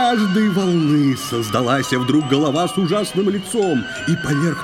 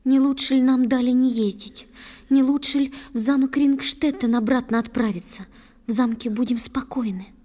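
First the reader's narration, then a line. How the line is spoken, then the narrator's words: Whispering. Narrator (Russian): шепнула снова Ундина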